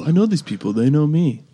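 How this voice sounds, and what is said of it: Imitates another person's voice. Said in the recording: “Another really bad Kevin Durant impression”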